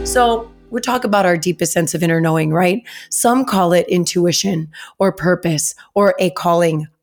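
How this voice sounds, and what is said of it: Raspy, hoarse voice. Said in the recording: “raspy voice and all ... I don't know if I was yelling more from excitement on the rides or if I was yelling because I needed my kids to calm down”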